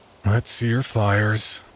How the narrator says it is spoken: Grandpa grumbled

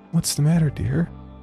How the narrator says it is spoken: She said in a sweet voice

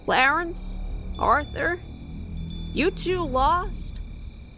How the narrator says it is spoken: she regularly called out

